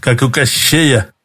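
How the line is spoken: Nervous chuckle. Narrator (Russian): нервно хохотнул курьер

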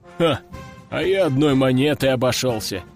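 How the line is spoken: Guard chuckling. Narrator (Russian): хохотнул охранник

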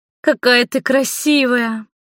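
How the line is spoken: Delighted exclamation. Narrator (Russian): воскликнула Маргари, восторженно

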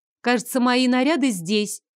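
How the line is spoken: Loud. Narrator (Russian): громко проговорила я

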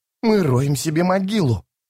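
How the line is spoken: Hissing. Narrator (Russian): прошипел Таламандос

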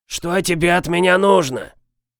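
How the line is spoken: Distant angry wheeze. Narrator (Russian): прохрипел откуда-то из недр неухоженного дома сердитый голос

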